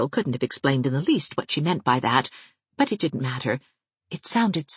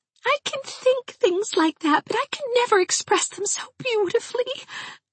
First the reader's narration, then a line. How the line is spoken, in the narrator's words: moaned Hazel in an anguish of rapture